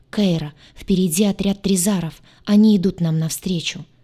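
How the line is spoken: Agitated. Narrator (Russian): взволнованно проговорил он

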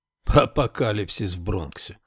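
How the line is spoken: Scornful snort. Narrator (Russian): фыркнул критик

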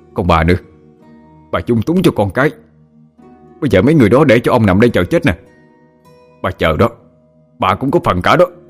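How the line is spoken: Glowering, angry. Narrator (Vietnamese): Mặt em tôi gầm gầm nhìn lại bà rồi nói

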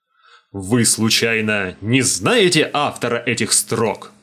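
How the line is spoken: Growl. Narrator (Russian): рыкнул я

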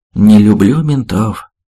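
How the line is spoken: Sighing huntsman. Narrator (Russian): вздохнул егерь

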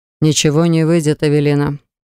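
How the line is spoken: Dry, businesslike tone. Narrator (Russian): ответил он опять своим сухим тоном, будто мы об отчете в налоговый орган говорили

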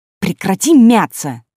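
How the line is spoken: Exasperated bark. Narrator (Russian): Не выдержав и рявкнув

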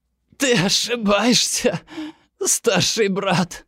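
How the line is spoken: Hoarse rasp. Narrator (Russian): хрипит Кук

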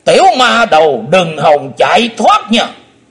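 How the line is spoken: Shouted. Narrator (Vietnamese): Chí Tôn quát

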